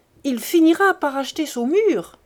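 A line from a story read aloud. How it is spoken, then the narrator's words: Exclamation. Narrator (French): s'écriait un troisième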